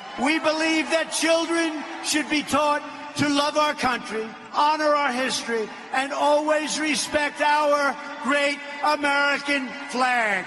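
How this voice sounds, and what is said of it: Queens New York accent. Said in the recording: “the Queens accent still grates on me a little bit”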